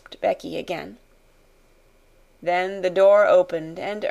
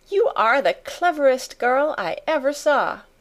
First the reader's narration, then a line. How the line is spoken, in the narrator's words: she cried out